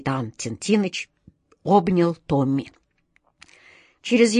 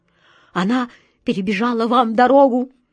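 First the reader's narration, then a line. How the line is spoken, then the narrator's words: Trembling, barely gotten out. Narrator (Russian): дрожащим голосом еле выговорил он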